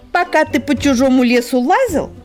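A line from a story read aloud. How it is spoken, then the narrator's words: Snapping retort. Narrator (Russian): огрызнулась фейк-сорока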